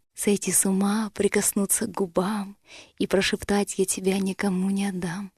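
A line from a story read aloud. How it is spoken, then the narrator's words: Whisper in the ear. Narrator (Russian): Мне хотелось прошептать на ухо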